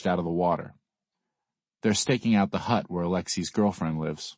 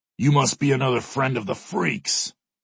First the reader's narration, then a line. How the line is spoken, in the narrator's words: the guest snarls at me